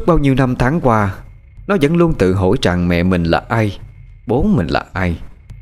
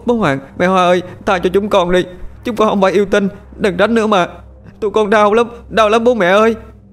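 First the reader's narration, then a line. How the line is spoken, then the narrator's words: Tearful pleading children. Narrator (Vietnamese): Dần và Tẻo thấy Lượm đã ngất, cho nên khóc lóc van xin hai con quỷ đội lốt người kia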